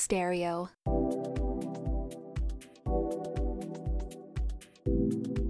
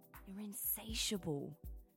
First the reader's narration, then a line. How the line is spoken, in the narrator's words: I whispered